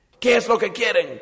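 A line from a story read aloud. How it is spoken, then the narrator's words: Loud question. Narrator (Spanish): preguntó con voz fuerte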